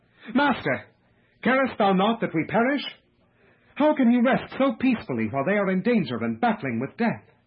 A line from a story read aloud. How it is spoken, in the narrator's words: In amazement and despair, they exclaim